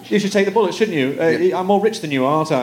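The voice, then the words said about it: Put-on British accent. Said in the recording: “don't do a British accent to a professional British person”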